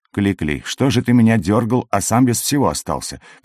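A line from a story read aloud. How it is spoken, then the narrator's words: Hissed. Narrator (Russian): прошипел я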